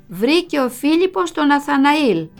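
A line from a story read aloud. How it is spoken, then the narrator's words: Smiling, telling. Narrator (Greek): Η μαμά χαμογελούσε και μου έλεγε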